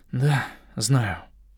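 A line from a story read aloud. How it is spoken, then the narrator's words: Gloomy. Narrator (Russian): мрачно подтвердил я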